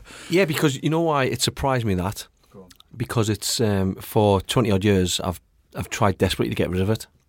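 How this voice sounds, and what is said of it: Fast Northeast English accent. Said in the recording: “People have been enjoying the northeast tone that you've got ... I tend to talk very quickly and... sort of mumble a little bit”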